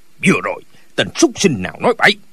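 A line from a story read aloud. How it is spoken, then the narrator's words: Old man shouting. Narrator (Vietnamese): Lão quát lên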